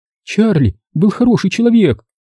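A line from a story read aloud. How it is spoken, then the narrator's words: Announced through tears. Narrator (Russian): возвестила она сквозь слезы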